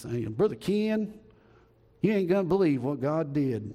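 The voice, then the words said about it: Imitated Southern accent. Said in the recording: “he has Southern accent, of course ... That's pretty good impersonation”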